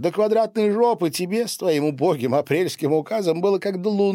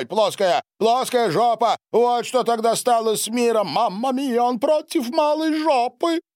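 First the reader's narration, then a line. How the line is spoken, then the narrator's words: Astonished exclamation. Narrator (Russian): воскликнул Сильвио, словно впервые услышал это название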